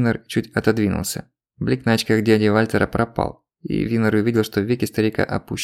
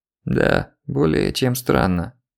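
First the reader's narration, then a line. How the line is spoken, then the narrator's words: Creaky voice. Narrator (Russian): наконец произнес он скрипучим голосом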